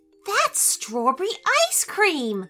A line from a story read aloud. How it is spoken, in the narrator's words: Nicola exclaimed